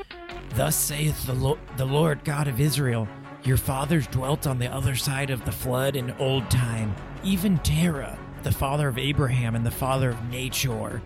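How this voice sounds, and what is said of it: Biblical Joshua character voice. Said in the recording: “I'm going to do my Joshua voice.”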